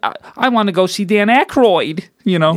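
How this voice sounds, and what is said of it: Funny put-on voice. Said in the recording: “I'm doing a funny voice.”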